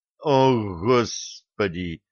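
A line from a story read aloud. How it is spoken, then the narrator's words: Silent inner groan. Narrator (Russian): мысленно простонал Булат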